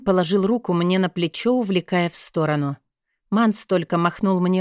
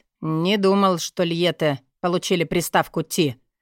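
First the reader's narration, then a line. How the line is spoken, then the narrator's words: With a snort. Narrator (Russian): хмыкнул мастер Тибланк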